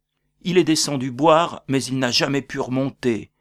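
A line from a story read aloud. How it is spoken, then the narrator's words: Exclaiming. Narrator (French): s'exclama Aloysius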